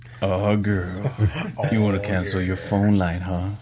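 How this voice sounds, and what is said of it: Deep smooth crooning phone voice. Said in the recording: “telephone voice ... up it up a little bit ... smooth jazz it ... Barry White it”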